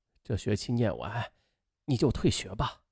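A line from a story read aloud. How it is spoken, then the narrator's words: Choked, tearful. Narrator (Chinese): 父亲在电话里哽咽着说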